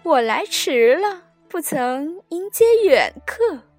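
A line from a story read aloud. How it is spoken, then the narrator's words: Laughing, from back courtyard. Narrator (Chinese): 后院中有人笑声说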